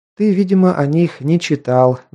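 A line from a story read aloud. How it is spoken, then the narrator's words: Sighing. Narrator (Russian): вздохнула та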